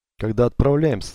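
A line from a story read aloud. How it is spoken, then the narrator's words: Plain question. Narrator (Russian): спросил он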